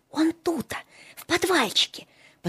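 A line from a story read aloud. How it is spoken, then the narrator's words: Secretive whisper. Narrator (Russian): потаенным шепотом объяснял Филиппка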